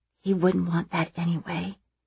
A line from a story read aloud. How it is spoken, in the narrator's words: I whisper back